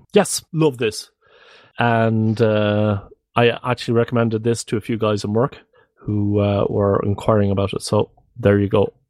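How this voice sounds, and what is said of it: Irish accent. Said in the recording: “I'm Irish and I live in the Netherlands. That explains the accent”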